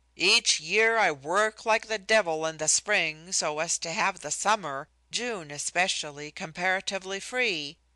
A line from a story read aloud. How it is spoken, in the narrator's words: he exclaimed one day